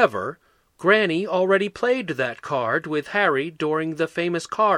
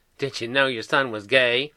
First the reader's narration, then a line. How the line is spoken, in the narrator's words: Granny cackled